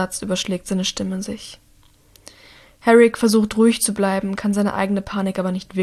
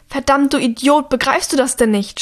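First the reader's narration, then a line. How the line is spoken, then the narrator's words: Shouted. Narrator (German): schreit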